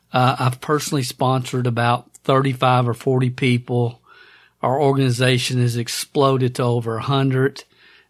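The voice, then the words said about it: Hoarse, nearly lost voice. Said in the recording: “I've almost lost my voice.”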